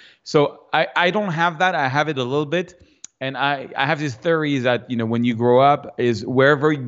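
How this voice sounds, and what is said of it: Usual voice. Nothing is said of it.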